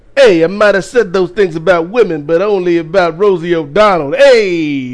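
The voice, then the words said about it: Trump impression sounding like Andrew Dice Clay. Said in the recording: “I just turned Donald Trump into Andrew Dice Clay ... my Trump impression”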